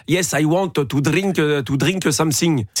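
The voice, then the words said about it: Smooth put-on French accent in English. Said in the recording (French): “Ça, c'est un accent français... C'est un accent français coulant”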